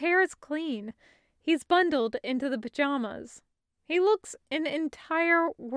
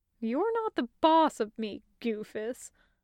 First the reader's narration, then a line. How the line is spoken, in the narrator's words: Taco mumbles, and she has to keep a wide smile from stretching across her face